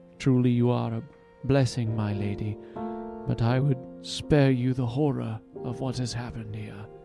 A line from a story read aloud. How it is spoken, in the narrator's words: The physician sighed and said